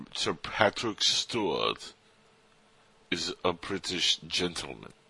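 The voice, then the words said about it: Bad put-on British accent. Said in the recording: “Is that the worst British accent you've ever heard? That was pretty bad”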